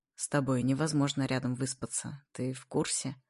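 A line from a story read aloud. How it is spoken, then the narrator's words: Slightly hoarse. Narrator (Russian): Тоже с легкой хрипотцой говорит Игнат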